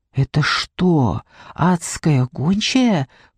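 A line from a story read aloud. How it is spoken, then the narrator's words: Whisper. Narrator (Russian): прошептала я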